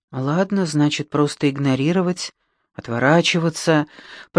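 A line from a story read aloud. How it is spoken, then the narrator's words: Fearful mutter. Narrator (Russian): пробормотала я, боясь еще больше разозлить Беппи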